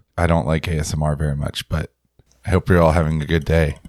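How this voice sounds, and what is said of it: Congested, rough voice. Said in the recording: “my voice isn't this sexy. I just am recovering from a head cold.”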